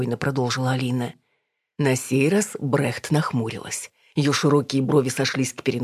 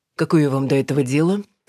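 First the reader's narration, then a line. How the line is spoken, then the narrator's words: Dry curt remark. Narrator (Russian): сухо обронила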